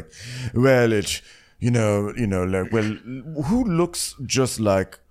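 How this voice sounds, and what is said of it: Imitating Shohreh Aghdashloo's accent. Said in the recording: “I was like reading my notes in her accent.”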